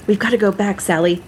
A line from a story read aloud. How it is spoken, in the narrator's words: he shouted in a whisper